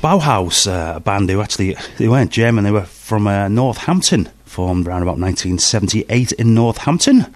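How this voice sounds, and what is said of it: Rough voice with a cold. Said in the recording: “I'm feeling a bit rough at the moment, you can probably tell by my voice. I'm full of cold, sore throat.”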